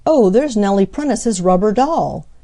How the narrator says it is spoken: exclaimed Harry

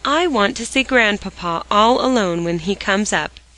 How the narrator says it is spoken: she said

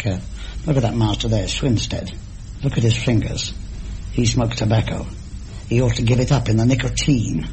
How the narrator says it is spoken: say things under my breath

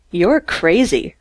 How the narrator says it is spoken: Robinson sneered

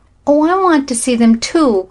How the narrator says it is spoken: cried Flossie

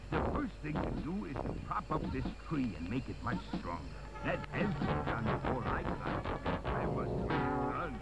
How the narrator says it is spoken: murmured Horace

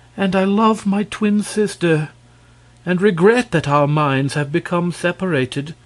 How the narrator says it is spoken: she continued sadly

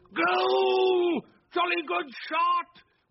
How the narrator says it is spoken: Wilkins, as excited as the youngest of them, shouted

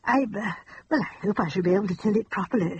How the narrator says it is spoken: she said anxiously

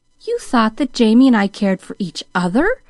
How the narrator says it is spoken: exclaimed Pollyanna, into whose face now was stealing a soft, shy color

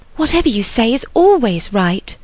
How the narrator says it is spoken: cried Harriet

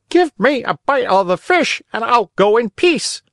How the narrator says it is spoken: the poor dog was very hungry, and whining … he tried to say

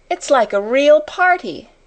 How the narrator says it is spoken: cried Ermengarde

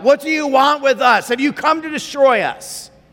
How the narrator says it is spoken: this man shouts out

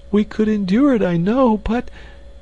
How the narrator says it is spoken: she sobbed

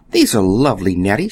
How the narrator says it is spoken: she exclaimed

